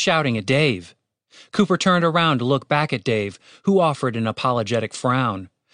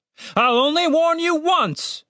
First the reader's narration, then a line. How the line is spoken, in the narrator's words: shouted the captain, with more than a hint of desperation in his voice